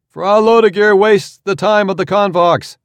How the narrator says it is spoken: a man called out

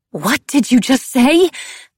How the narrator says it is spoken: Coco spluttered, indignant

